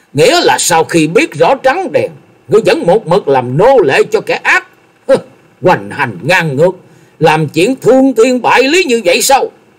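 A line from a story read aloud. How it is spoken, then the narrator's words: Raised voice shout. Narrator (Vietnamese): Lâm Tường cao giọng quát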